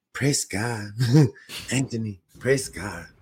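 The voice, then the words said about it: Imitates another person's voice. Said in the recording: “it's a good impression. The guy was, this is exactly what he said.”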